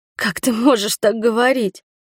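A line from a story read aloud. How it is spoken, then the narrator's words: Sobbing. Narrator (Russian): всхлипнула я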